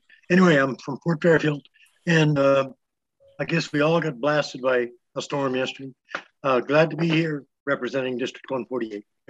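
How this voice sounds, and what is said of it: Rough, recovering voice. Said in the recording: “Sorry about my voice. It's a little on the mend.”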